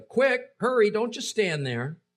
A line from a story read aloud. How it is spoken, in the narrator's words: Jonathan continued shouting after the boy